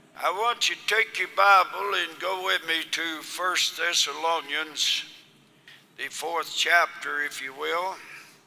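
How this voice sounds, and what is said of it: Voice in poor condition. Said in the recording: “my voice is bad ... apologize for my voice being so bad”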